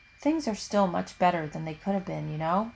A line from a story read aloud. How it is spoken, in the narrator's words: Christina says quietly